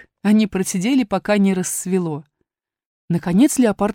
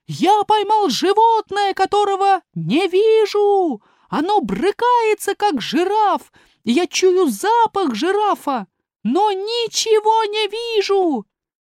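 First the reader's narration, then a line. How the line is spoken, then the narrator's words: Shouting. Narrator (Russian): Эфиоп закричал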